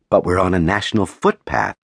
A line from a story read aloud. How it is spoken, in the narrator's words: protested, my sense of unfairness momentarily outweighing my instinct to exit sharply